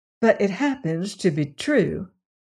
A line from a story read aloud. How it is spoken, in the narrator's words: said the cook crossly